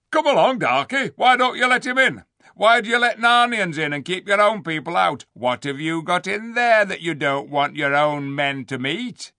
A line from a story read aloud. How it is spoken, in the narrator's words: began Rishta Tarkan